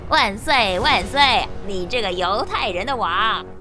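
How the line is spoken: Deliberate mockery. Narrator (Chinese): 故意在戏弄耶稣

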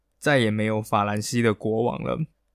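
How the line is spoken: Low muttering. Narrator (Chinese): 路易十六……便低声嘟囔了一句

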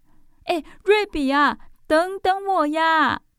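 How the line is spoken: Breathless calling from behind. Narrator (Chinese): 宝儿气喘吁吁地在后面叫着

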